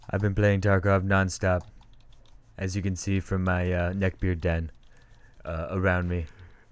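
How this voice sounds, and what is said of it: Imitates another person's voice. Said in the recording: “I'm losing my impression.”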